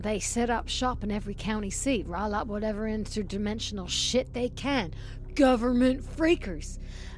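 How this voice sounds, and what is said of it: Exaggerated put-on country accent. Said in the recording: “your fucking mad accent ... her very own Dolly Parton”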